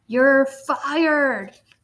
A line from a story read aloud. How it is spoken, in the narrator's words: roared Pete